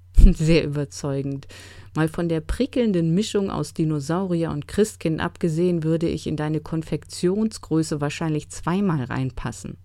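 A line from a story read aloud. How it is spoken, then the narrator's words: Giggling. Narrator (German): Max kicherte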